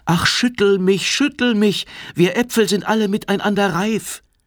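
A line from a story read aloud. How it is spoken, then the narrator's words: Calling out. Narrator (German): Der rief ihm zu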